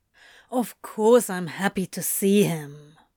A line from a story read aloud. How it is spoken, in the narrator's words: Crowley growled